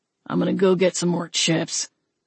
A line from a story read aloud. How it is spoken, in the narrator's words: the gambler grumbled